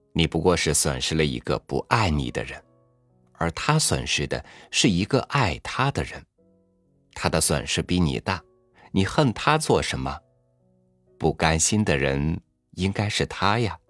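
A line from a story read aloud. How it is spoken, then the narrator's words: Laughing philosopher. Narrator (Chinese): 一个哲学家笑道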